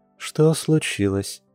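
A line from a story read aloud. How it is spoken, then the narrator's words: Soft question from she-bear. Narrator (Russian): мягко спросила медведица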